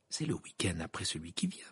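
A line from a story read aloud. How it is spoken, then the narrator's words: Murmured. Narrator (French): murmura Hermione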